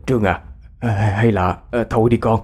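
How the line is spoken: Trembling stammering old man. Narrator (Vietnamese): Ông Tước run lẩy bẩy, lắp bắp nói

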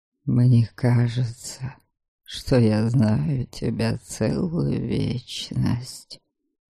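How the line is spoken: Whispered. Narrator (Russian): прошептал Дариан

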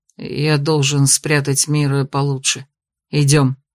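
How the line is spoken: Muffled. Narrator (Russian): произнес он глухо

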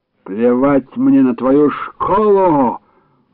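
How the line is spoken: Angry roar. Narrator (Russian): взревел краснорожий

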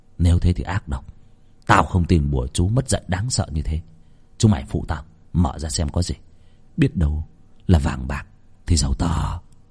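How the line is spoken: Muttering. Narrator (Vietnamese): Việt lẩm bẩm

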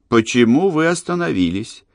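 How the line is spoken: Calm, mildly curious question. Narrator (Russian): Спокойно и даже слегка заинтересованно спросила она

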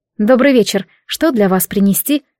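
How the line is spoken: Plain. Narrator (Russian): спросила я

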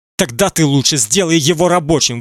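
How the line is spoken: Angry shout. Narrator (Russian): выкрикнул гневно

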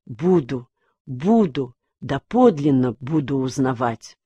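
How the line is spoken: Whisper. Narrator (Russian): он шептал

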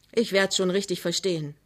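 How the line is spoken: Plain. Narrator (German): sagte Pinneberg

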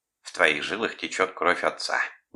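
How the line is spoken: Displeased grumble. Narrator (Russian): недовольно проворчала

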